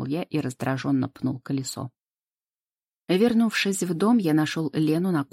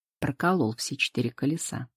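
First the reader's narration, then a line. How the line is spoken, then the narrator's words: Said gloomily. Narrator (Russian): мрачно сообщил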